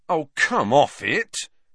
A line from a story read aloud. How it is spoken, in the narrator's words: he told the wall irritably